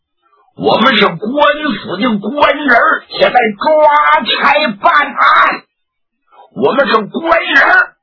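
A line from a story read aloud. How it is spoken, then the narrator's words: Loud shout. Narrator (Chinese): 努尔哈赤……又喊了一嗓子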